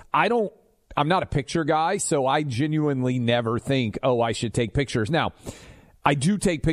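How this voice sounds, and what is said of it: Usual voice. Nothing is said of it.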